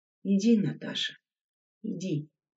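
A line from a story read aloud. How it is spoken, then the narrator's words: Quiet speech. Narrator (Russian): тихо сказал Мятников девочке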